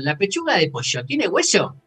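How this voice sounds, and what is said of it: Imitates another person's tone and accent. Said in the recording (Spanish): “en ese tono y con ese acento”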